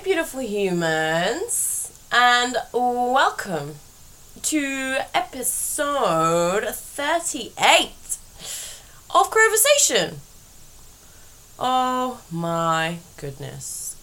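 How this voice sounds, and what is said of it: Tired, very slow speech. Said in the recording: “Can you hear the fatigue in my voice ... This might be the slowest I've ever spoken.”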